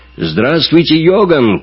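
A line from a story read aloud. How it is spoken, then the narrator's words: Shouted. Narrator (Russian): крикнул Эрвин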